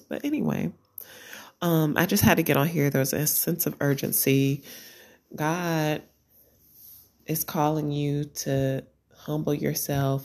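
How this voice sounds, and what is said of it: Hoarse voice. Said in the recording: “I'm super hoarse ... my voice sounds a mess because of allergies”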